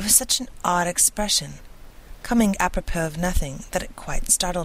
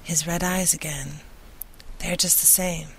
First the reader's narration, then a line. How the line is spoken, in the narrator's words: suddenly Lucy murmured, as if to herself